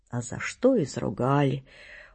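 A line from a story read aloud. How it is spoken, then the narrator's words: Dejected, gloomy speech. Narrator (Russian): уныло говорит он мне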